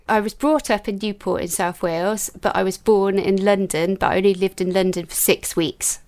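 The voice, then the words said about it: Welsh lilt. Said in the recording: “you do have the Welsh lilt”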